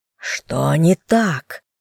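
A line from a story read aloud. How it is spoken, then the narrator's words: Growled. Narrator (Russian): прорычал Альконе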